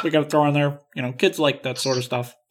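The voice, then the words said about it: Imitates another person's voice. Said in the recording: “my best George Lucas impersonation”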